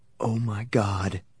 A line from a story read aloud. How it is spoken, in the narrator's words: whisper